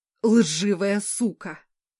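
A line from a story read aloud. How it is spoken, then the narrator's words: Enemy roaring. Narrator (Russian): взревел враг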